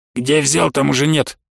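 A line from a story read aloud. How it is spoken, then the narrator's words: Grumbling. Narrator (Russian): проворчал он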